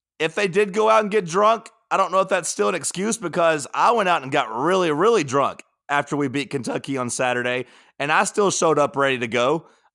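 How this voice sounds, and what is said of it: Hoarse, nearly lost voice. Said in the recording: “I don't even have a voice right now. I don't know if you can tell, but my voice is gone.”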